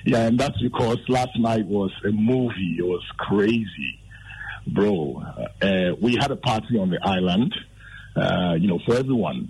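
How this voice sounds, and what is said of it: Hoarse, partly lost voice. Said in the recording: “I'm sure you can tell that I've lost my voice a little bit.”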